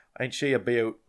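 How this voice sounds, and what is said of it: Brief put-on Australian accent. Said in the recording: “I'm not even gonna try an Australian accent. I don't even know why I just did that. It's embarrassing.”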